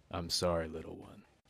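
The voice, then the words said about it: Thanos voice impression. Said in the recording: “Thanos quotes... I should do his voice.”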